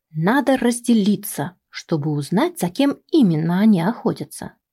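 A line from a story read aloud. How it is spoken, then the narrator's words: Plain. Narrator (Russian): сказал я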